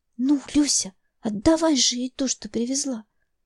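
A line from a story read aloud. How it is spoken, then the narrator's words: Whispered. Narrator (Russian): шепнула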